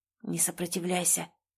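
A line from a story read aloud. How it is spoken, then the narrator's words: Whispered. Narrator (Russian): прошептал он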